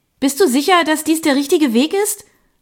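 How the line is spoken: Called out. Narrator (German): rief ich

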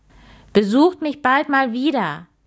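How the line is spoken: Cheerful farewell call. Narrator (German): rief es, während es ihnen fröhlich nachwinkte

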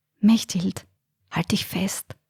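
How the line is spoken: Whisper. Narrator (German): flüsterte Alfred

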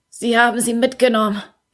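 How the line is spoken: Croaked. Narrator (German): krächzte er

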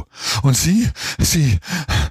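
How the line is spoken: Gasping. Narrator (German): keuchte

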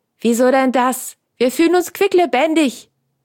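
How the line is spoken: Calling out. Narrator (German): rief Franz

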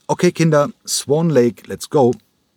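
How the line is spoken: Calling out while clapping. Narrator (German): Cranko rief in seine Hände klatschend

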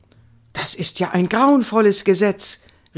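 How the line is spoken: Excited call. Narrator (German): rief Indiana aufgeregt

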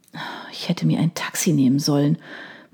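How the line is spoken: Quiet muttering to herself. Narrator (German): murmelte leise vor sich hin

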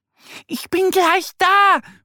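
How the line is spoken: Calling out. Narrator (German): ruft Annie

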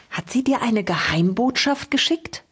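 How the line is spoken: Child's soft conspiratorial question. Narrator (German): fragte der Sechsjährige so leise wie verschwörerisch

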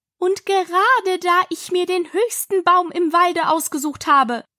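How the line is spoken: Raised voice. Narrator (German): fuhr die Taube mit erhobener Stimme fort

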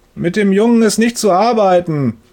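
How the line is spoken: Thundering through wall. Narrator (German): donnert Herr Müllers Stimme durch die Wand

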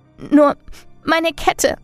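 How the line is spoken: Sobbing. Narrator (German): schluchzte

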